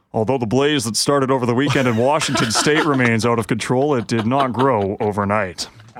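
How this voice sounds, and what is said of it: Imitates another person's voice. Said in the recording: “Can you read a news line in Braun's voice? ... That's pretty good.”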